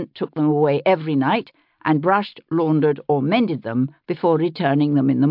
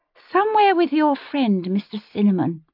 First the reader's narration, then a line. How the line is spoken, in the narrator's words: Amaranthus said, blinking sleepily